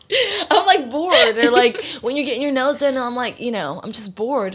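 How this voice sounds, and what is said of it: Beach boy surfer-dude voice. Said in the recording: “that's exactly how he sounds like. ... why do you sound like a beach boy?”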